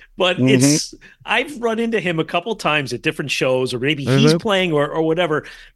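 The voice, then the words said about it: New Jersey accent. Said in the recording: “you're from New Jersey... You got that accent.”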